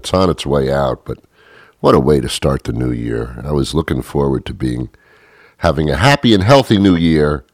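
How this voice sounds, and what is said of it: Scratchy voice from a cold. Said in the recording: “my voice is a little bit different? Yeah, on the 30th, I had a scratchy throat. Now, you know, now I got a little cold going on.”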